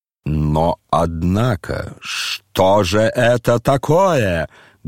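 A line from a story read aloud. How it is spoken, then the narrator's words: Sudden angry menacing exclamation. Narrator (Russian): Грозно и внезапно воскликнул рассердившийся Ардалион Александрович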